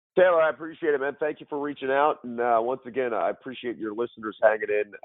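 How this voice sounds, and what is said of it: Hoarse, strained voice. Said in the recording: “Apologies on losing my voice. Hopefully I have it by the end of the week.”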